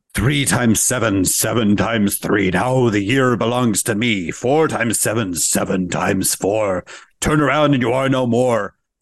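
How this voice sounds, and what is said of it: Satan character voice. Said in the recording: “my Satan voice”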